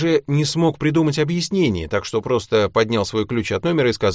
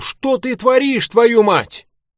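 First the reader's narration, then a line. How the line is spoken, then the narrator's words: Shouting. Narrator (Russian): посыльный закричал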